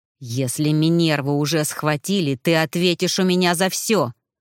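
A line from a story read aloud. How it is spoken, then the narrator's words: Through gritted teeth. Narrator (Russian): Процедил он сквозь зубы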